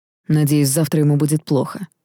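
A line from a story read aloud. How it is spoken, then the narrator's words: Snorted. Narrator (Russian): фыркнул Даррелл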